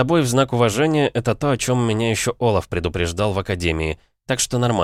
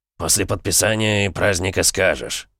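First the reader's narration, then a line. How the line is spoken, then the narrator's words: Grumbling mutter. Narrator (Russian): буркнул Колобок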